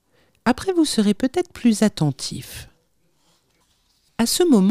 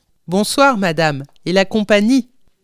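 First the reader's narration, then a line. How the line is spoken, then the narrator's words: Loud voice. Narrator (French): dit-il d'une voix forte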